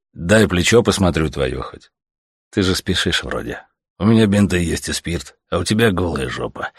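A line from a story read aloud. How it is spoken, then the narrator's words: Sighing. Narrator (Russian): вздохнул Савелий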